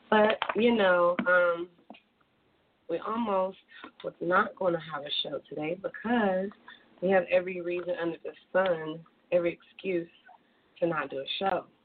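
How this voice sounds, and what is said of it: Hoarse, partly lost voice. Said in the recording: “excuse my voice, it's gone a little bit”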